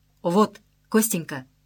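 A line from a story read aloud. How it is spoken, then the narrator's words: Slightly solemn. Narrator (Russian): сказала она немного торжественно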